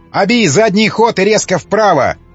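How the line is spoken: Shouting. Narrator (Russian): крикнул он

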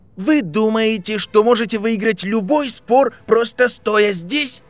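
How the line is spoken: Shouted. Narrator (Russian): Выкрикнул Гарри

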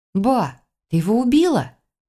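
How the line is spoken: Exclamation. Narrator (Russian): воскликнула я

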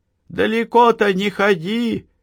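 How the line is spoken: Shouting after someone. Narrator (Russian): крикнула ему вдогонку сестра

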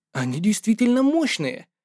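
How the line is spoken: Exclamation. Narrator (Russian): воскликнул Лин Хуан

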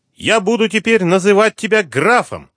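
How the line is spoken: Defiant shout after someone. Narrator (Russian): с вызовом крикнула вслед ему Лена

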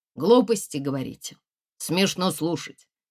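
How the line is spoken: Rude. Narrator (Russian): сказал грубо

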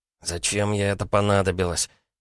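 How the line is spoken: Quiet question. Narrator (Russian): тихо спросил Киселёв

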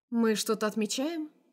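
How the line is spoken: Cheerful question. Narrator (Russian): спрашиваю бодро

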